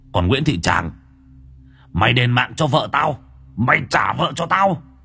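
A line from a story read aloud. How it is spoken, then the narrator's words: Roaring. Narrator (Vietnamese): lại gầm lên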